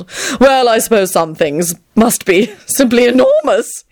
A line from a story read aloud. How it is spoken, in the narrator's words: he giggled